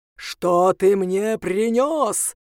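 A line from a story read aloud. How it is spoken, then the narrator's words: Menacing voice. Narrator (Russian): проговорил он страшным голосом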